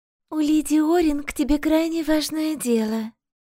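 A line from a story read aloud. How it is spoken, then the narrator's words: Honeyed female voice. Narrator (Russian): медовым голосом заявила Равена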